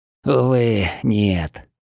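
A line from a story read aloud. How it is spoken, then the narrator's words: Sad young man. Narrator (Russian): грустно ответил молодой вождь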